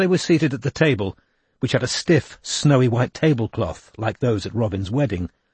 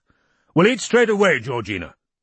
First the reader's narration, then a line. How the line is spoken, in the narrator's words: he barked